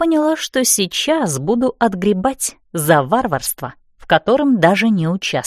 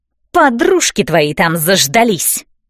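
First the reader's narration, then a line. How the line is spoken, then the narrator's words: Barking snap. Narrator (Russian): рявкнула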